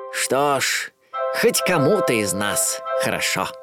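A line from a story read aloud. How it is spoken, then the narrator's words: Old man's mutter. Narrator (Russian): старый миллионер пробормотал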